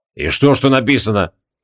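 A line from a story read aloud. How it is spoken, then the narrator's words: Snorting. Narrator (Russian): фыркнул Креол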